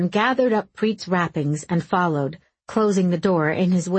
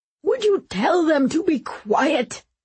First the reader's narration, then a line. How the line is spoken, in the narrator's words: Preet croaked